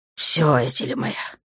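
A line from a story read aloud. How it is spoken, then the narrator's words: Breathed into ear. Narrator (Russian): выдохнул он ей прямо в ухо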